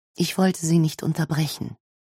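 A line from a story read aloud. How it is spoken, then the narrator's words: Gentle explaining. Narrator (German): erklärt sie sanft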